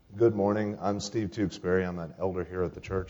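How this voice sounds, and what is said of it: Congested voice from a cold. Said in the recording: “I've got a cold, so I don't usually sound like this.”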